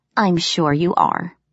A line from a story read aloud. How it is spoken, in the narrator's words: I said dryly